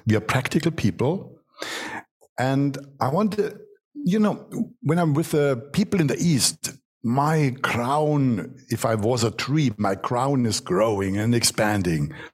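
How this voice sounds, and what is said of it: German accent. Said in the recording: “I'm born in Germany, what you can hear from my accent.”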